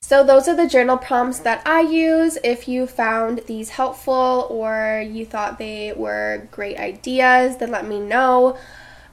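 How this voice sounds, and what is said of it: Sick, strained voice. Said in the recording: “because I am sick, my voice is starting to hurt now”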